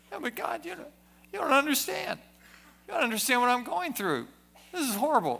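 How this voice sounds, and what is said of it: Whiny, complaining voice. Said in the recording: “got into the whiny voice.”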